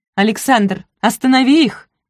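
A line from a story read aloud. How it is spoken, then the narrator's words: Shouting. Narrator (Russian): крикнула она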